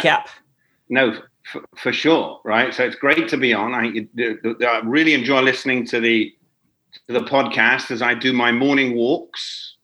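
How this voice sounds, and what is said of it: Non-Los Angeles foreign accent. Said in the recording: “You are currently based in LA, but you're certainly not from there, based on the accent.”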